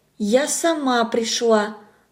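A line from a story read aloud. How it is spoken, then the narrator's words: Quiet frightened girl. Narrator (Russian): ответила тихо девочка, испуганно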